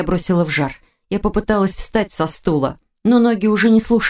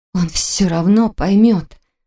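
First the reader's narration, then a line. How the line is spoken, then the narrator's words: Strained, forced out. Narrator (Russian): с трудом выдавила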